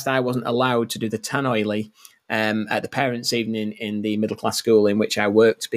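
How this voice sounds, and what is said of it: Regional accent. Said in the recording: “I've got a regional accent”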